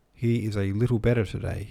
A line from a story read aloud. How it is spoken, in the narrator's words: he said